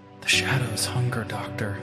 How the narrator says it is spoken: The patient, an elderly woman with vacant eyes, whispered

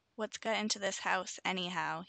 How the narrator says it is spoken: He growled

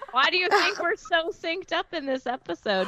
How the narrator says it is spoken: Pterodactyl yells at the same time

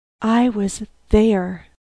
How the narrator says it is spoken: she gasped rather than uttered

